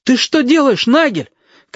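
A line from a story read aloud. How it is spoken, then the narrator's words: Shouting. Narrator (Russian): крикнул Галька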